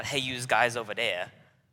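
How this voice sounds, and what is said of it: Exaggerated New York City accent. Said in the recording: “while I don't have a New York City accent, I'm not ... I still talk like a New Yorker”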